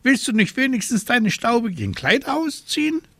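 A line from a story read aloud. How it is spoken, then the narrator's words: Indignant exclamation. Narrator (German): rief Abraxas entrüstet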